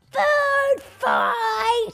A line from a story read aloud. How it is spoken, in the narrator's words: Somebody yelled